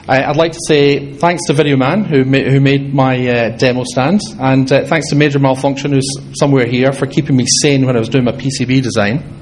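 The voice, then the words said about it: Slight Scottish accent, fairly fast. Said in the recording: “I've got a bit of a Scottish accent, and I probably went a bit fast”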